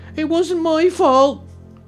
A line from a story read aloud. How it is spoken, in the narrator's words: cried Eve